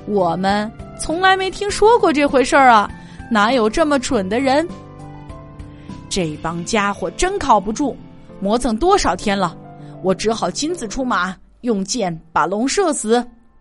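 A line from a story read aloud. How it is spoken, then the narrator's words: Laughing men. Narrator (Chinese): 船夫们哈哈大笑，说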